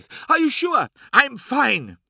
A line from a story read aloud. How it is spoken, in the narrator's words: she snapped, harsher than she meant to